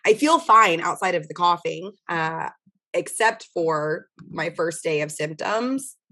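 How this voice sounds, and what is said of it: Hoarse, nearly lost voice. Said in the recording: “My voice is still gone. ... It's gone because I have COVID. ... from, I imagine, all of the coughing.”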